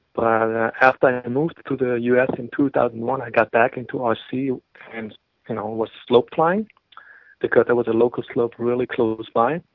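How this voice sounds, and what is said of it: German accent. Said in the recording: “you can hear from my accent that I'm from Germany originally”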